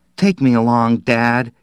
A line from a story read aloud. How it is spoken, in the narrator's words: he pleaded